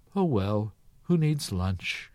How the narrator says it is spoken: With a resigned sigh, she said to herself

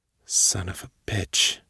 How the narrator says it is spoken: whispered

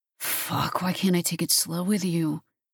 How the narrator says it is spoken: he muttered

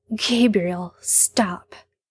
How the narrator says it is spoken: Sam says, and his voice shakes

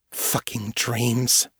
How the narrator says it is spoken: she muttered

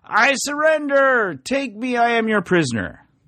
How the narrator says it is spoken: Lantern tosses up his hands and yells

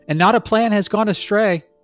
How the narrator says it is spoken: Dorothy shouted

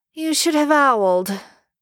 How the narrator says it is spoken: Draco says tightly

